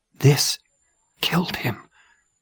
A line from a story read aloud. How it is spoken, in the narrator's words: Nelson whispered